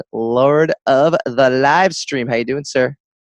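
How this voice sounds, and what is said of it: Playful Irish brogue, leprechaun-like. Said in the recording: “I kind of went like Irish brogue, like Lucky Charms leprechaun there.”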